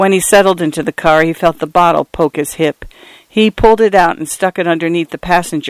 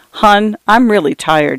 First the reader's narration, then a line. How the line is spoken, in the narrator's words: said